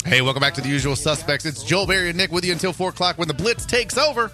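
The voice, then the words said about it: Official-sounding radio announcer voice. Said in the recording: “That was my radio voice. Did that sound official?”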